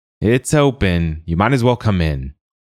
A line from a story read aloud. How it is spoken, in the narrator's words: the wizard called out